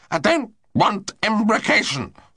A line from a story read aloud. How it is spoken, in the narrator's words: snarled the wounded man